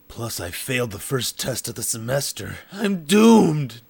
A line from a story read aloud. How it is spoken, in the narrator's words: Dark Wolf groaned